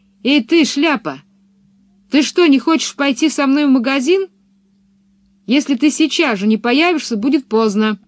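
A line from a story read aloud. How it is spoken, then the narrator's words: Shout. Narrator (Russian): Пеппи крикнула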